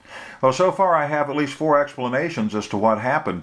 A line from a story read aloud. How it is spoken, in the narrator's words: Tricia laughed